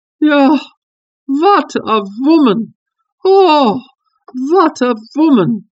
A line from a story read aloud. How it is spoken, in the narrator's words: cried the King of Bohemia